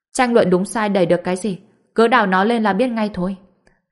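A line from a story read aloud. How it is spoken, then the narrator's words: Cold reply. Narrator (Vietnamese): Mộc Dịch lạnh lùng đáp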